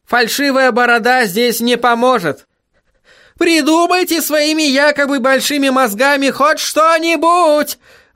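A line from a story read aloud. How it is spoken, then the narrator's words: Howling. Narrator (Russian): взвыл Гаспод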